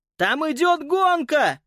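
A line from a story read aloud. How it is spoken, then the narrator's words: Shouting. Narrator (Russian): закричал Питер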